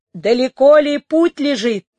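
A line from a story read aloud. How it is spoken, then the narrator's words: Shouted. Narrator (Russian): закричал Кортецело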